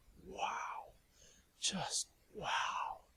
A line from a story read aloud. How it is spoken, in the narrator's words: Lavinia breathed hard and muttered